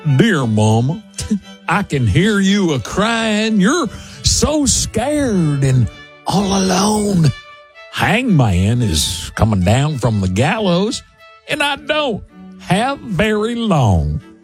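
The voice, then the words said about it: Put-on American Southern accent. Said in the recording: “Standing in for our British friends this morning, Southern. These lyrics lend towards a Southern accent.”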